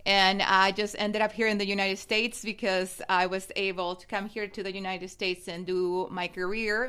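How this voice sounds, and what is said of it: Mexican accent. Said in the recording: “I know your accent. ... my accent is from Mexico”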